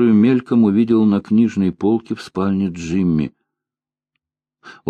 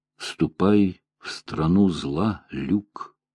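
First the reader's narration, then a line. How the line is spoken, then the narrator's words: Muttered. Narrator (Russian): пробормотал я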